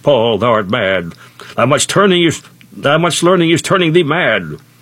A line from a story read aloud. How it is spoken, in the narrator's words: Festus cried with a loud voice